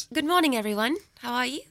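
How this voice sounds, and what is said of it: Polite London British accent. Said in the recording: “I enjoyed the London accent last night in your show ... It's really good ... It's very polite, old British conversation.”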